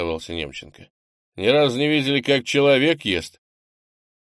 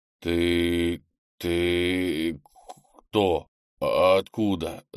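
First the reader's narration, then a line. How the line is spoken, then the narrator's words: Stammering man's question. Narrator (Russian): запинаясь, спросил мужчина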